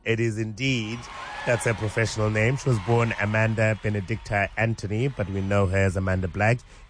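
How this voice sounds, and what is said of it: Voice sounds impaired. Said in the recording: “My voice is the only problem”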